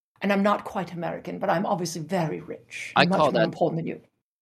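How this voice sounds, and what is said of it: Posh Mid-Atlantic accent. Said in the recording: “the Mid-Atlantic accent ... It's a very posh Catherine Hepburn, Cary Grant ... not quite British”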